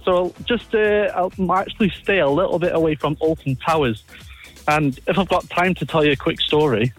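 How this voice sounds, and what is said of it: English regional accent. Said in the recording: “You have a lovely accent.”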